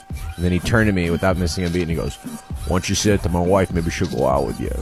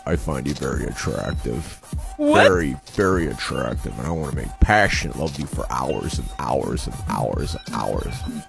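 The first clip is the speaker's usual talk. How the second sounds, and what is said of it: Imitates another person's voice. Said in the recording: “I do an impression of you ... you do my voice”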